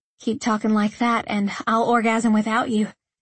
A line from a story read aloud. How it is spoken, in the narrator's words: I panted, my chest rising and falling rapidly